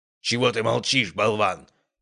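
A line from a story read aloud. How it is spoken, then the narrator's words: Growling. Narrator (Russian): прорычал Ярослав Андреевич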